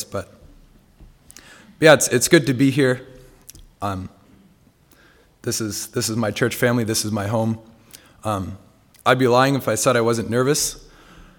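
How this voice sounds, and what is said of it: Slightly hoarse voice with occasional cracks. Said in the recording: “I didn't have much of a voice ... my voice is probably about 80, 85% back. You might hear a few voice cracks every now and then.”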